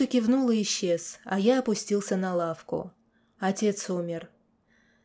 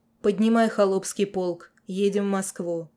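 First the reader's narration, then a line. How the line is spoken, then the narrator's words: Hollow-voiced command. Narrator (Russian): глухим голосом приказал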